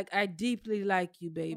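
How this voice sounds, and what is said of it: Unconvincing put-on African accent. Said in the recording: “Why you gotta do the accent ... you don't sound African ... You sound like Columbia, South Carolina. ... Trying to do African.”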